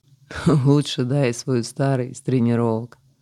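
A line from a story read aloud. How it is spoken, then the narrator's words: Laughing. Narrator (Russian): засмеялся собеседник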